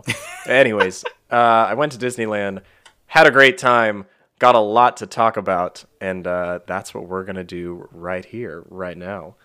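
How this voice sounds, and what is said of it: Raspy, sick-sounding voice. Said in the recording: “my voice might be a little off this episode because I have fallen ill ... the occasional raspy voice and cough”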